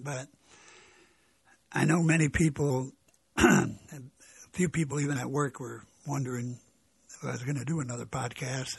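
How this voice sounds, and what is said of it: Weak voice. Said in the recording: “my voice is weak. I'm not 100%”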